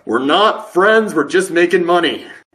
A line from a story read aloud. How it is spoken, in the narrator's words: he hears that and yells back